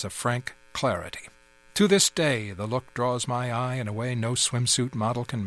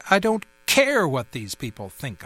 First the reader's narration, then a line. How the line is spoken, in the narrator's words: I snapped